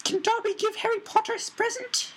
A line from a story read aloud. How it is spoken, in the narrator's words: he squeaked tentatively